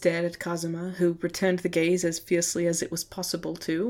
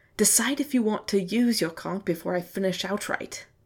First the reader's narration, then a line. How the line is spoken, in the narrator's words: Kazuma hissed